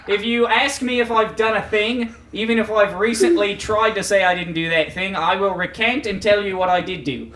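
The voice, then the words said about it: Unconvincing put-on accent. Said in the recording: “this accent isn't working”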